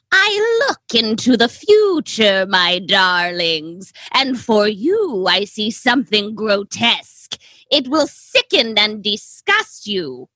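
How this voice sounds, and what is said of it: Poor impression of the Crypt Keeper. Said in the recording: “The Crypt Keeper himself ... how poorly I'm about to do an impression of this man's voice”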